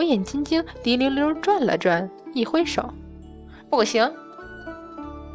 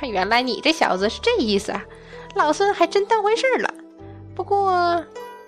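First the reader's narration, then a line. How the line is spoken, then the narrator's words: Hearty laughter. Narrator (Chinese): 孙悟空缓过神来，大笑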